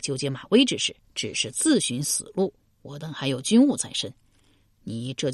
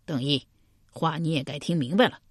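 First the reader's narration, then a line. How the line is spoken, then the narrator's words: Cold. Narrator (Chinese): 冷冷道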